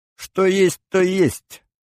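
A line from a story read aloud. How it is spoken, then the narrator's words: Mocking sing-song. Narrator (Russian): пропела Сулима насмешливо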